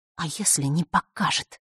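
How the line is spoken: Angry whisper. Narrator (Russian): разозленным шепотом произнесла она

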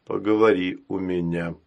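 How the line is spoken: Grim executioner. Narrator (Russian): мрачно сказал палач

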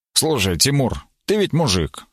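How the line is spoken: Stern. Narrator (Russian): строго сказал Бероев

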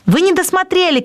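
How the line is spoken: Shouting. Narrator (Russian): кричал Вонючка

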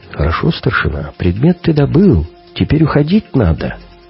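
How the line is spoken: Quiet whisper. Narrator (Russian): Тут мне товарищ Жора тихонько так шепчет

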